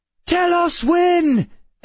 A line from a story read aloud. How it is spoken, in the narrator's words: Emma shouted